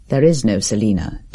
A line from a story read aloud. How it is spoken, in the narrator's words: declared Herbert grimly